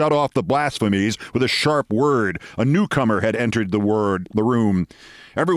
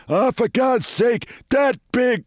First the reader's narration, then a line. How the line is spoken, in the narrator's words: exclaimed